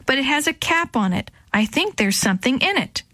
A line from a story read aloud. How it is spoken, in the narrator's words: she shouted back